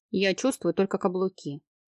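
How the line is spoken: Curt grumble. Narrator (Russian): буркнула Рая

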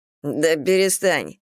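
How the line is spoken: Dismissive snort. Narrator (Russian): фыркнул Стив

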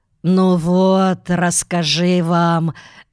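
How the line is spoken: Displeased grumble. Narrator (Russian): недовольно пробурчал Одинцов

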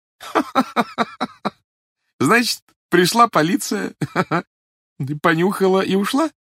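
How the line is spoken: Laughing. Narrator (Russian): засмеялся блондин

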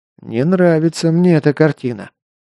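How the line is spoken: Gloomy remark. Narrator (Russian): мрачно заметил Александр

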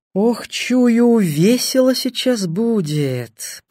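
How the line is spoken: Drawling. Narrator (Russian): протянул Степа Жарков

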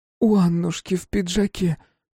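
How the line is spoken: Sobbing. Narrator (Russian): всхлипнула врачиха

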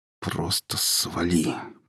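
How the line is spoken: Quiet, through clenched teeth. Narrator (Russian): процедил Саша тихим голосом

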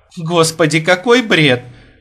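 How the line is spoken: Speaking then bursting laughing. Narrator (Russian): проговорила и расхохоталась

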